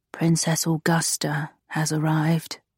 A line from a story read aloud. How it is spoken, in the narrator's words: the footman said quietly